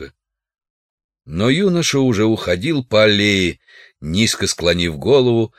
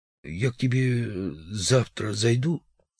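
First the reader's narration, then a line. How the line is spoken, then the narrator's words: Strained young man's voice. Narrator (Russian): юноша вдруг сказал сдавленным голосом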